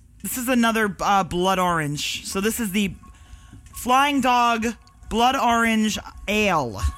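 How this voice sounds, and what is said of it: Brooklyn accent. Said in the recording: “I can't break my Brooklyn accent. It won't go away.”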